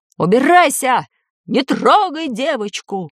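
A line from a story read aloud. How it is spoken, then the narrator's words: Man shouting. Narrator (Russian): крикнул мужской голос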